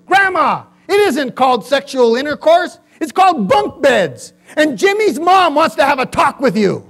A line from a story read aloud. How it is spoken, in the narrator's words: said angrily